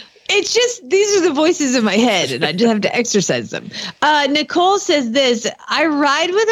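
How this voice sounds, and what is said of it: Usual voice. Nothing is said of it.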